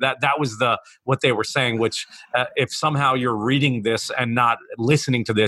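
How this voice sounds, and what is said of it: Usual voice. Nothing is said of it.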